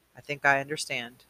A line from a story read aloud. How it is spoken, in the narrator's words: said Atticus